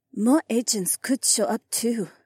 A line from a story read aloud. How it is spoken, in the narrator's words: Haywan whispered